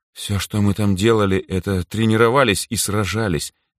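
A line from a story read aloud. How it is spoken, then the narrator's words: Heavy sigh. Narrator (Russian): тяжело вздохнула Эльза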